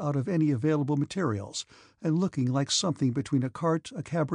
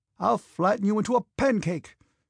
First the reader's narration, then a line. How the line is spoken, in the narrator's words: shouted the angry officer to the soldier